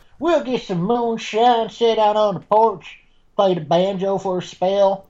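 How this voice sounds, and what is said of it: Exaggerated phony Southern accent. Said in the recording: “not southern... I was doing, like, the biggest oaky, like, all phony”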